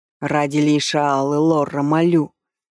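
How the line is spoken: Breathless plea. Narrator (Russian): выдохнул Нейдлай

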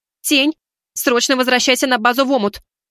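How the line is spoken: Nearly shouting. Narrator (Russian): буквально кричала она

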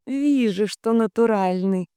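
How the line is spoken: Sweet drawn-out voice. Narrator (Russian): сладко протянула

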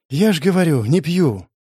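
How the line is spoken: Heavy sigh. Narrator (Russian): тяжело вздохнул я

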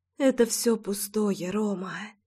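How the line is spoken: Whispered. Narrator (Russian): прошептала она

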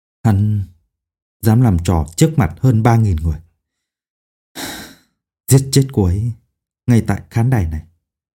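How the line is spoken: Whispering. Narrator (Vietnamese): ông thì thào nói

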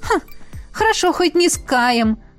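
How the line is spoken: Short laugh. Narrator (Russian): хохотнула Ева

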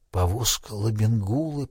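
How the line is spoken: Whisper. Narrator (Russian): прошептал он

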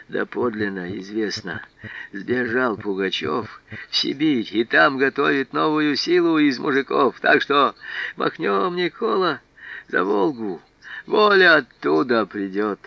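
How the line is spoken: Hoarse whisper. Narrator (Russian): хрипло зашептал

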